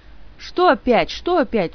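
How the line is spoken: Indignant whine. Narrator (Russian): возмущенно проныл

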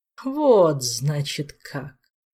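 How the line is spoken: Mocking drawl. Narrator (Russian): Насмешливо протянул повелитель

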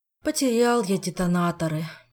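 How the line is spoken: Sighing. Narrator (Russian): вздохнул Жак

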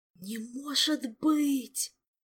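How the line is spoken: Horrified moan. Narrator (Russian): в ужасе простонал теоретический отец

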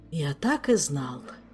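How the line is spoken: Hopeless sigh, king. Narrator (Russian): безнадежно вздохнул король

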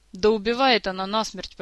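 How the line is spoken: Grumbling. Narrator (Russian): проворчал Жак

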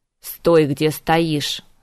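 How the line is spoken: Angry hiss. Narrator (Russian): зло прошипела Морриган

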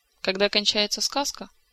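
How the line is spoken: Sad, dejected. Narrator (Russian): грустно улыбнулся приунывший возлюбленный

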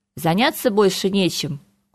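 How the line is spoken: Cold inquiry. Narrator (Russian): холодно поинтересовался Харган

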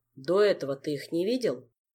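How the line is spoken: Plain. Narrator (Russian): спросил, наконец, Шелар

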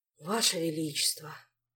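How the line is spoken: Sighing. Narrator (Russian): вздохнул Шут

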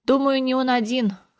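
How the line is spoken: Snorting. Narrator (Russian): хмыкнул Толик

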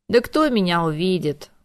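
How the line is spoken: Dejected. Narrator (Russian): уныло махнул рукой Орландо

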